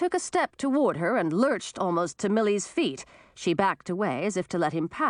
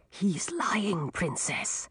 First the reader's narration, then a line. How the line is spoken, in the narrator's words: Sir Jarvis whispered in her ear